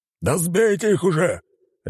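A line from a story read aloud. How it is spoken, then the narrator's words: Man barking. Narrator (Russian): рявкнул мужчина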